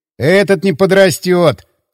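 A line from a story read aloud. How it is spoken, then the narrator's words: Snort. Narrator (Russian): хмыкнул Дмитрий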